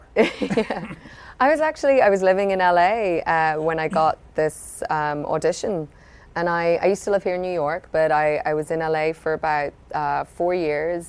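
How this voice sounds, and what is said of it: Slight Irish accent. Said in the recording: “this little accent that is not... Claire's ... I'm Irish ... Irish, I'm hearing a little bit of it.”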